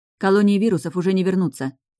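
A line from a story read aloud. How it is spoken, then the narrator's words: Angry objection. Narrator (Russian): зло возразила Таша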